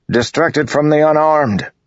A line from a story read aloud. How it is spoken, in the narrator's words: Dalinar bellowed at his soldiers